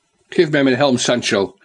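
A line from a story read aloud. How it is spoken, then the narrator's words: Impatient call. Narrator (Dutch): riep de dolende ridder vol ongeduld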